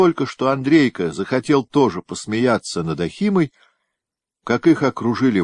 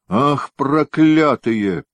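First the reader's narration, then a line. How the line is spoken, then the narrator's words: Malicious, under breath. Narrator (Russian): злобно произнес он как бы про себя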